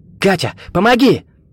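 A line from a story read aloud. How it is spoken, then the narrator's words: Desperate shout. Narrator (Russian): Поняв, что со связанными руками он долго не продержится, Виктор, отчаянно мотая головой, крикнул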